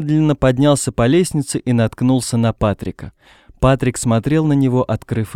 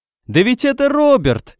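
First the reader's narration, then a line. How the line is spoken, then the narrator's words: Shout from behind. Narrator (Russian): крикнули сзади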